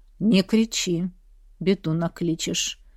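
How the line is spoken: Quiet fearful plea. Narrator (Russian): Тихонько попросил кузнец, а внутри все похолодело от жутких воспоминаний

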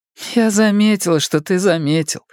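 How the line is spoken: Quick retort. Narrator (Russian): парировала она

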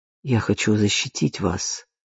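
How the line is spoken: Quiet. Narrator (Russian): тихо сказал

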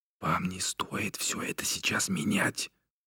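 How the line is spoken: Whispering. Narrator (Russian): прошептал

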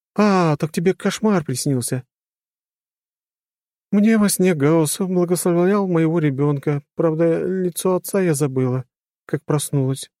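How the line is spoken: Sighing. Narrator (Russian): вздохнула Ира

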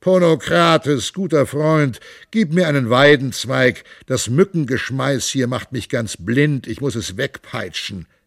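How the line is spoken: Sighing. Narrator (German): so hageldicht flogen die Kugeln, dass er seufzte

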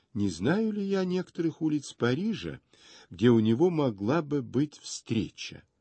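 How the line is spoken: Practiced warm confiding tone. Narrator (Russian): спросил своим профессионально задушевным голосом

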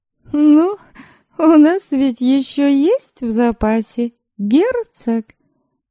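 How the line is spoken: Laughing, consoling. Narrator (Russian): смеясь, утешила ее Предслава

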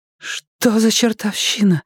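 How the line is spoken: Breathless exhale. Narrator (Russian): выдохнула Ламия

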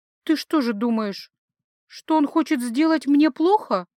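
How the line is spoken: Mental groan. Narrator (Russian): Анарил мысленно застонала

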